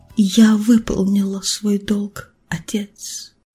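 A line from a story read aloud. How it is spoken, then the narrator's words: Quiet. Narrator (Russian): тихо произнесла Асият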